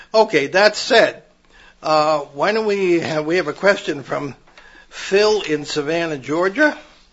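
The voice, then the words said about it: Hoarse voice. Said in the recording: “my voice is so messed up over the past bunch of shows ... I'm hoarse all the time, and if I keep yakking, I might get short of breath”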